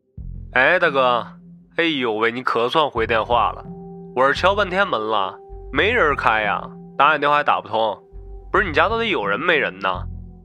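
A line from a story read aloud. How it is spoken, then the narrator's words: Delivery man, clear over phone. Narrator (Chinese): 电话里传来外卖小哥的声音十分清楚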